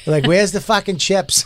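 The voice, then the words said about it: Exaggerated Boston accent. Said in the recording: “we had our dumb Boston accents”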